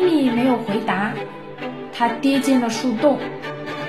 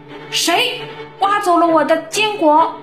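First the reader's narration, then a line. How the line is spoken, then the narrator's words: Loud shout. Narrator (Chinese): 他又对着树洞大喊了一声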